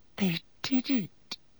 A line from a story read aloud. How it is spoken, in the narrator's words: she whispered to Harry